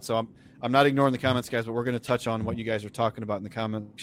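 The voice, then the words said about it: Strained, fading voice. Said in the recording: “I'm starting to lose my voice a little bit here”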